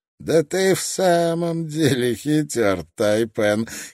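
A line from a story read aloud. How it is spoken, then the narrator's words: Giggling. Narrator (Russian): хихикнул Скрагер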